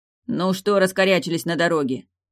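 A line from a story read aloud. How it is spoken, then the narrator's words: Impatient bark. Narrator (Russian): нетерпеливо гаркнул Явор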